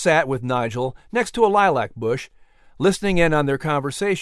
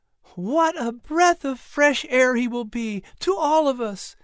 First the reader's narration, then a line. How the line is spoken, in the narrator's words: Sarah exulted with a sigh of relief